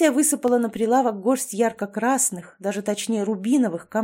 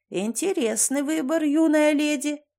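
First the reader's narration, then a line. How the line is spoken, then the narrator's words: Creaky voice. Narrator (Russian): проскрипел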